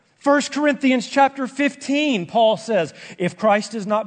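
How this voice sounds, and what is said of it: Excited, loud, yelling preaching. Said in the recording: “I'm getting a little bit excited. Am I yelling? It sounds like I'm yelling. I'm excited.”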